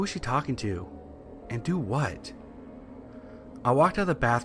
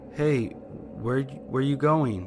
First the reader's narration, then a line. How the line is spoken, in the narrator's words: I slurred like I was drunk